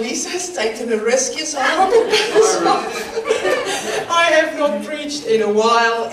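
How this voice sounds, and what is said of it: South African accent. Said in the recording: “as you can hear from my accent, I was born in South Africa”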